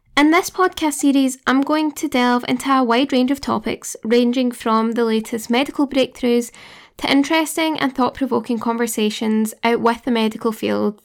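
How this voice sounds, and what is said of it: Glaswegian Scottish accent. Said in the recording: “studying in Glasgow, if you couldn't tell by my accent”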